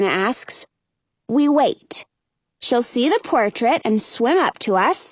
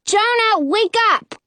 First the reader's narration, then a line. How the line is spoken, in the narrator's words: yell